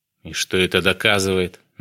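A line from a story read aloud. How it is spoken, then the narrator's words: Mocking. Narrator (Russian): насмешливо уточнил Аслан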